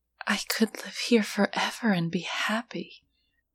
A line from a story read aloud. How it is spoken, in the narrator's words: she murmured